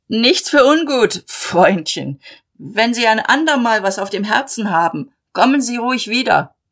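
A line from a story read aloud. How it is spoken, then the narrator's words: Calling after someone. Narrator (German): Mahlmann rief ihm nach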